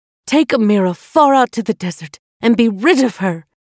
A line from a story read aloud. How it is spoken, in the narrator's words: Queen Kafiti called out in anger